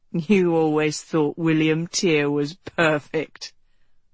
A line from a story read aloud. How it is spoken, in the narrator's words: Rose said with a chuckle